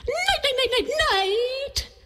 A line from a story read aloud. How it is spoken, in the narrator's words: howled Coyote